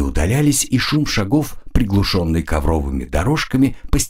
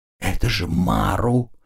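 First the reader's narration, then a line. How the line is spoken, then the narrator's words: Whisper. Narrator (Russian): прошептала она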